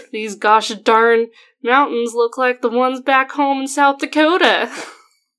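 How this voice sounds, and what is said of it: Put-on country bumpkin accent. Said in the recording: “exaggerate his country bumpkin accent ... I can't even do my country bumpkin accent”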